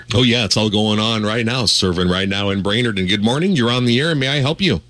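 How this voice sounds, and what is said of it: Slightly raspy voice. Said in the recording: “A little raspy,”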